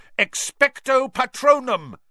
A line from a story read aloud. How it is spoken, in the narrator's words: roared